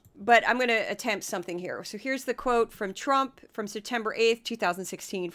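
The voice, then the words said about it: Hoarse, worn-out voice. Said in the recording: “my voice is kind of completely shot anyway”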